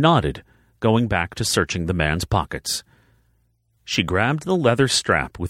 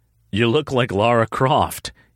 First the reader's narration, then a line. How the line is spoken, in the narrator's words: he said with a small laugh